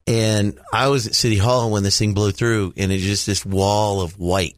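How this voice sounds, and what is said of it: Stuffy, congested voice. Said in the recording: “You can still hear it in my voice. ... I'm still a little stuffy from all of this”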